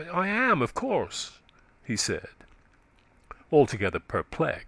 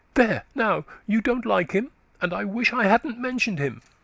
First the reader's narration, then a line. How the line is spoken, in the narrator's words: she exclaimed almost petulantly